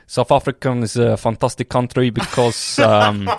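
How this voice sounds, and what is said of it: Put-on South African accent, passable. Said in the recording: “South African. ... is that a bad accent? It's not too bad, is it? South African. ... That's not bad. It's not great.”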